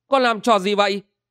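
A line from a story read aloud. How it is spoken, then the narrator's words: Puzzled shout. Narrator (Vietnamese): Băng Điện Hằng Nga lấy làm lạ quát lên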